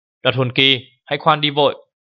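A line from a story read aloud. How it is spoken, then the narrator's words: Shrill shout in forest. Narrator (Vietnamese): một tiếng hét lanh lảnh vang lên trong khu rừng rằng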